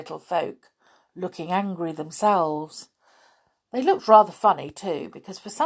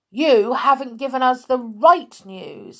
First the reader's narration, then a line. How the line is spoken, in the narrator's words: shouted back Peter angrily